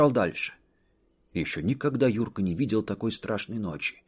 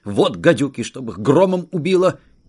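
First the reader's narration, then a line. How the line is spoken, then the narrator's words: Breathless. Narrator (Russian): Кто-то сказал, задыхаясь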